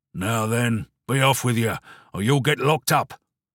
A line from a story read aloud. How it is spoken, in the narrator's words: a stern voice growling